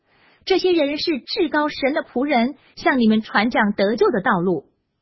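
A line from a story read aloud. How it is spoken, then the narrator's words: Shouting. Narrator (Chinese): 她喊叫说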